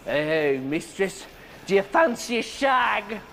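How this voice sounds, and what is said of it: Put-on English accent. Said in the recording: “that stupid little English twang ... put on some kind of stupid fucking accent like”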